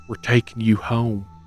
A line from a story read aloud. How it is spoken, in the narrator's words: a soft voice whispered